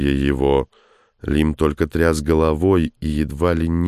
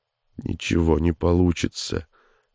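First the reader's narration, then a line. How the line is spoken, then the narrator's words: Barely audible mutter. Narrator (Russian): едва слышно пробормотал он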